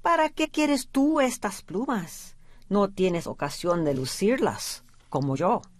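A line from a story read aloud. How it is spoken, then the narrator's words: Plain. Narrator (Spanish): le dijo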